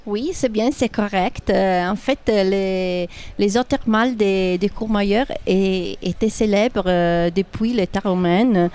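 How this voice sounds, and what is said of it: Italian accent speaking French. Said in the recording (French): “avec l'accent italien”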